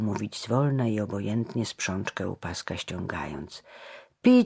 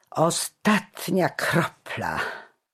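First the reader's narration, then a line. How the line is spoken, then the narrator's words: Mocking laugh. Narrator (Polish): zaśmiał się szyderczo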